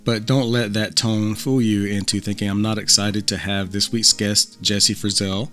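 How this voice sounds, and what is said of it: Reserved monotone, strained voice. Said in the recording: “reserved monotone, creepy tone, you might call it, because I'm on the verge of losing my voice”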